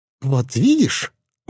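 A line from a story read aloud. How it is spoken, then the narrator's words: Exclaimed. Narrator (Russian): воскликнул муж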